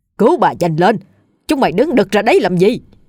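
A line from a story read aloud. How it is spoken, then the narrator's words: Urgent shouted order. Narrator (Vietnamese): Ông Chánh quát lên, thúc giục đám gia nhân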